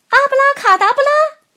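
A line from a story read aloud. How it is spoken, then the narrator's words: Shout. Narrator (Chinese): 她大喊一声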